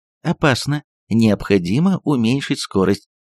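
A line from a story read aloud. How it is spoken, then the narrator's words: Cooing female autopilot voice. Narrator (Russian): проворковал женским голосом автопилот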